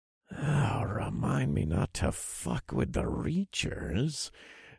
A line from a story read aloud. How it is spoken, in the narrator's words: I murmured to Jax under my breath